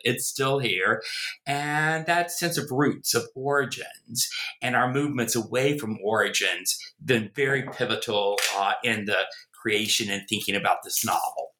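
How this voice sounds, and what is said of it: American Southern accent. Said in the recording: “you can tell from my accent, I am a Southerner, a born in the American South, in Virginia, grew up in North Carolina. Try as I may, I've never been able to get rid of the accent.”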